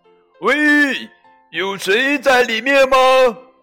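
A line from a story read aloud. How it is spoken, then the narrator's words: Calling out. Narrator (Chinese): 小猪 朝下面喊道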